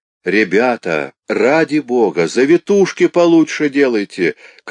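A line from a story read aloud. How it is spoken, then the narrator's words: Man shouting from below. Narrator (Russian): крикнул снизу человек с зелеными кантами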